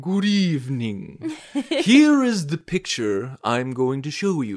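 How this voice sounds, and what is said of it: Poor Alfred Hitchcock impression. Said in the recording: “That was the worst Hitchcock accent ever.”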